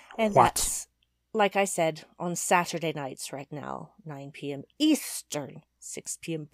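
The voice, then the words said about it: Over-enunciated angry stage magician voice. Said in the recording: “What is this accent you're doing? ... This is my enunciation ... Persona, making sure that every letter in every word actually comes through ... angry stage magician”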